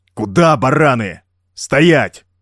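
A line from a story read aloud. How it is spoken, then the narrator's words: Barked command. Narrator (Russian): рявкнул Жак, ринувшимся было вперед бразильцам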